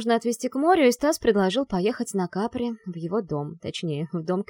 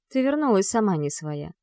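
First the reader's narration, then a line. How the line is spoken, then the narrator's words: Calm mother. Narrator (Russian): спокойно произносит мама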